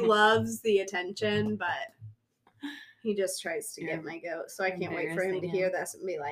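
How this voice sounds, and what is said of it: Usual voice. Nothing is said of it.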